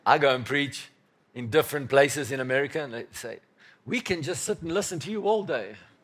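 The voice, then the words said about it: English accent. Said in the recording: “my English accent is better than their American accent”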